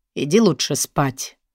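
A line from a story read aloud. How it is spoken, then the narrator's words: Quiet scolding. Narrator (Russian): Ленкин отец тихо выговаривает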